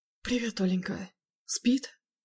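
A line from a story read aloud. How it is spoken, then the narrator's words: Knowing whisper. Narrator (Russian): Понимающе шепнул в ответ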